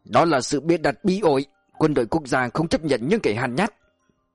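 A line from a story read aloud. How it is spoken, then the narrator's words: Angry, loud. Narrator (Vietnamese): Chuẩn tướng Nguyễn Ngọc Loan không kìm nổi cơn bực tức to tiếng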